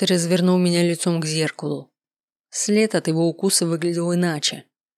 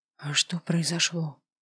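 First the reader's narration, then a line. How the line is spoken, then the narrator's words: Hoarse question. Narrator (Russian): спросила я хрипло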